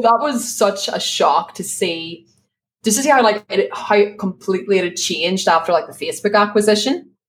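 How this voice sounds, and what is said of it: Belfast accent. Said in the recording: “my Belfast accent because no one will understand it”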